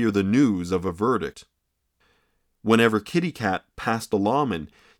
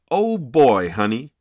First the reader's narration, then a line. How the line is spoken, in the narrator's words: he exclaimed to Kitty Cat as he jubilantly burst from the courtroom